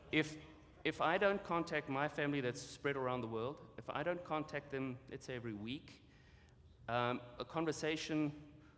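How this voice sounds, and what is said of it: Speaks with a noticeable accent. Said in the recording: “I don't know if you noticed, I've got an accent.”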